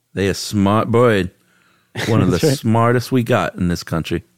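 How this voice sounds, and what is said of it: Put-on Vernon, Florida accent. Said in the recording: “That's a good Vernon, Florida accent.”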